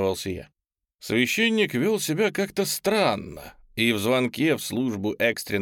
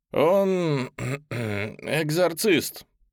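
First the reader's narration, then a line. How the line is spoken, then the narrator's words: Forced out, reluctant. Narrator (Russian): наконец выдавил из себя отец Пирс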